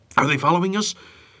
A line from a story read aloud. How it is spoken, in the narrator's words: Popeye asked, panting hard